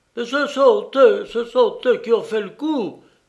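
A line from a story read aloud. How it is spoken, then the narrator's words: Yelling. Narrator (French): hurlait le docteur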